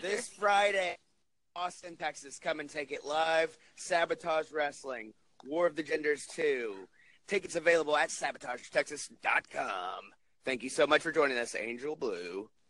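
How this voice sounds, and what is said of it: Radio announcer voice. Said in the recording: “That was my actual, like, radio voice”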